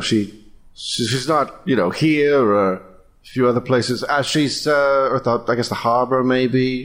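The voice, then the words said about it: Put-on British accent, slipping in and out. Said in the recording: “I've forgotten to be British ... the British accent going in and out”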